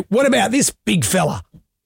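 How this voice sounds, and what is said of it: Imitates another person's voice. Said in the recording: “impression of Robert ... you do a very good impression ... remarkable ... It's extraordinary ... It's pretty good ... That's not bad”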